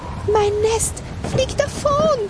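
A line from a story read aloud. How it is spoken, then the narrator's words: Blackbird screaming. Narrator (German): schrie die Amsel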